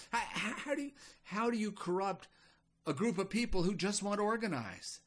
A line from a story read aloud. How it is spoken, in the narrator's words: Baal sighed